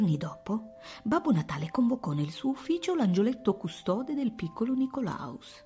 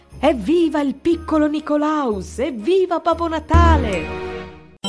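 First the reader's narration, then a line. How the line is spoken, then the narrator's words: Smiling shout in chorus. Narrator (Italian): sorridendo in coro urlarono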